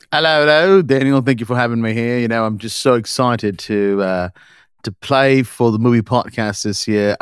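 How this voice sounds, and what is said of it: Put-on British accent. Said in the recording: “What region would you say your accent is from in the UK?”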